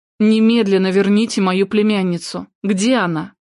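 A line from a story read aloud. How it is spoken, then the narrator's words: Demanding. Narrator (Russian): Она требовательно произнесла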